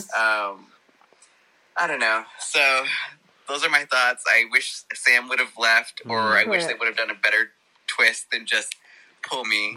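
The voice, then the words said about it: Pleasant accent. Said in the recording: “He's got a lovely accent, hasn't he? I like his voice.”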